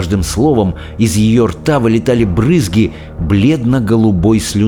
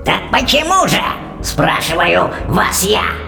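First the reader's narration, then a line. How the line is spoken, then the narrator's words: Witch's growl. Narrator (Russian): прорычала ведьма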